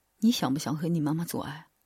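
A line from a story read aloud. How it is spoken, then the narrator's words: Mysterious whisper. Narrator (Chinese): 神秘的在我耳边轻声说道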